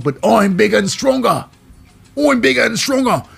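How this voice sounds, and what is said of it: Put-on Australian accent. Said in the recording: “now I got an Australian accent”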